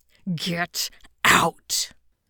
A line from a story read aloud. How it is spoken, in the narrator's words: When he hissed